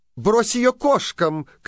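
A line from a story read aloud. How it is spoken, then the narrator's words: Shouted. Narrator (Russian): крикнула слуге дочь мачехи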